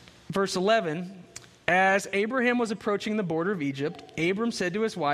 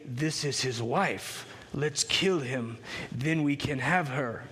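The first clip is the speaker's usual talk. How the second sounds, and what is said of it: Put-on accent. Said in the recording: “I don't know if that's the right accent, but I just kind of threw that in there”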